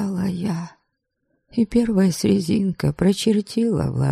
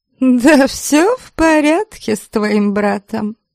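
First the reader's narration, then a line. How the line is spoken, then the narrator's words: Laughing. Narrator (Russian): Женщина вдруг рассмеялась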